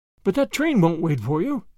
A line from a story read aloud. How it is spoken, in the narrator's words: gasped Grandma, half in protest